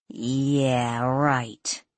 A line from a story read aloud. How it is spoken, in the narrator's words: Danielle grumbled, feigning annoyance